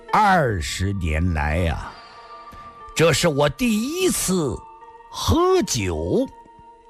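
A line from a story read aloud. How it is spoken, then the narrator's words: Slow, deliberate. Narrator (Chinese): 上官金鸿 缓缓说道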